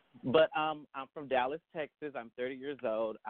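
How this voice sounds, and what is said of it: Southern US accent. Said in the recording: “I'm the Southern Belle, so please look over my Southern accent.”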